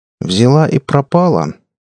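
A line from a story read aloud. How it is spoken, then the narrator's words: Tired clarifying question. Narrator (Russian): устало уточнил Саня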